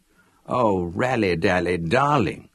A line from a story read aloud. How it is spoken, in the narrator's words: wheezed Leslie in high passion